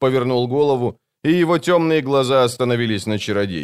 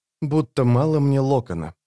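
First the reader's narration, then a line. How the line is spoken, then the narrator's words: Muttered. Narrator (Russian): пробормотала рваная снасть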